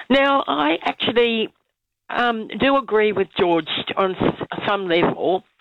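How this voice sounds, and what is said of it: Croaky voice from a cold. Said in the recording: “I've got a bit of a cold, so my voice is a bit croaky.”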